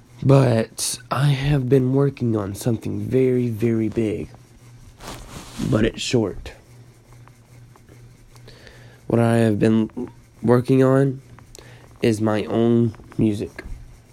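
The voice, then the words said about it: Stuffy-nosed, sick-sounding voice. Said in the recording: “My voice is kind of messed up. I'm a little sick. ... My nose is stuffed. I can barely breathe.”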